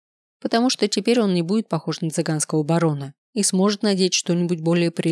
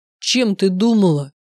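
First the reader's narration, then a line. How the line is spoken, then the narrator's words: Growled. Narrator (Russian): прорычал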